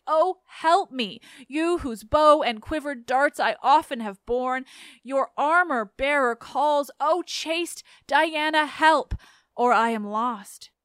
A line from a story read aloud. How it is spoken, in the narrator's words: At last, worn out by all my efforts to escape, I cried